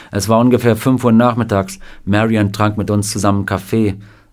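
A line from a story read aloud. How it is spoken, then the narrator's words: Plain. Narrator (German): sagte Sam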